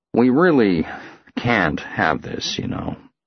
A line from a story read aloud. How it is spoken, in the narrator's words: he gazes at me sadly and says